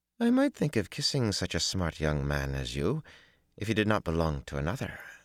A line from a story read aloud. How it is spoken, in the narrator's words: she murmured in decidedly warm tones